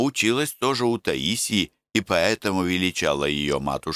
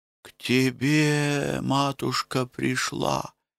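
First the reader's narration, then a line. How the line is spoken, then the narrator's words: Whispered answer. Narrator (Russian): шепотом ответила Аграфена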